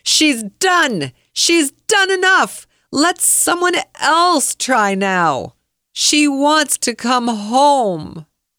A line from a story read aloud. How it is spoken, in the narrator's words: a voice through a megaphone yelling